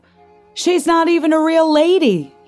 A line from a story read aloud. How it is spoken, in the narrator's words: he shouted